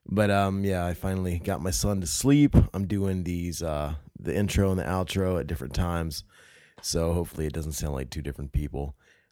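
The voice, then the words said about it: Worn-out, strained voice. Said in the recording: “my voice is kind of shot. I don't know if you can tell that. Maybe it sounds cool. Maybe I sound like a radio guy.”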